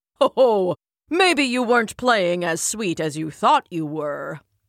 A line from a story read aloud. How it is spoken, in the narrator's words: chuckled Zeus